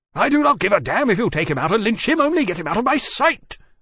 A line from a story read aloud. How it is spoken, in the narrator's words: the Port Admiral said furiously